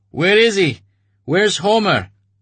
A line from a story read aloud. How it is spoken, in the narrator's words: Artyom shouted at him